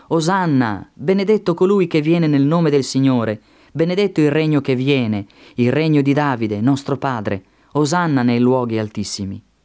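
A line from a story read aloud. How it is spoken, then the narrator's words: Crowd shouting. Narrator (Italian): coloro che andavano avanti e coloro che venivano dietro gridavano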